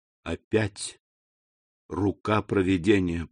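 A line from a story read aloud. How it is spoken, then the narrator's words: Whispered. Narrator (Russian): прошептал он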